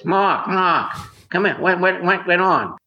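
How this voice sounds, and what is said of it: Impression of another man's voice. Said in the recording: “I'll do his voice.”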